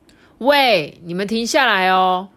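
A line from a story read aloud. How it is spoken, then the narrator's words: Loud involuntary shout. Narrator (Chinese): 呼噜哦，不由得大声的叫了起来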